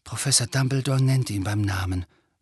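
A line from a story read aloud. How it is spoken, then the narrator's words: Quiet. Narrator (German): sagte Harry leise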